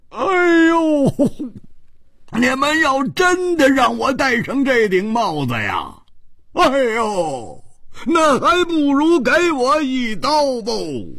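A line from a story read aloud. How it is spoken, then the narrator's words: Loud shout. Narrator (Chinese): 胡铁花大声地叫着说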